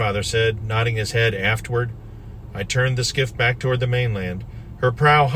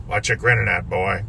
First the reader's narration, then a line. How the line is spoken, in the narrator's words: growled Pop around his pipe